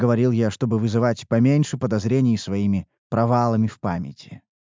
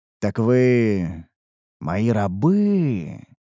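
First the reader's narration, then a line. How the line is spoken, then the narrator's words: Drawling, confirming a guess. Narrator (Russian): протянул я, скорее подтверждая свои догадки, а не вопрошая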